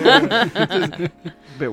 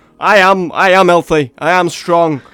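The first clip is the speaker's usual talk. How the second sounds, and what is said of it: Put-on northern English accent. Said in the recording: “I was just doing a northern accent.”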